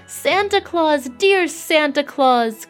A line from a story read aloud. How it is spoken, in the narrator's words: cried out Jimmy Scarecrow with a great sob